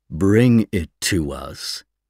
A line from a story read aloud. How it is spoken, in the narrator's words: the Other said slowly